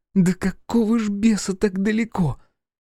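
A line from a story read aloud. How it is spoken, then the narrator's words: Laughing with burning throat. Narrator (Russian): Фергус расхохотался, чувствуя, как жжет горло от ошейника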